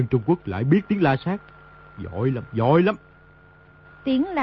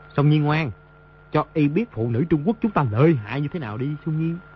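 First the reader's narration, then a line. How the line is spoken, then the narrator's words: Smiling. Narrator (Vietnamese): mỉm cười nói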